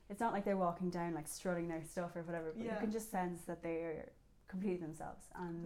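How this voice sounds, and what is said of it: Strong Irish accent. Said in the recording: “I have a big Irish accent, actually.”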